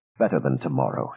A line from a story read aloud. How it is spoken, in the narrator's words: she said with a dry laugh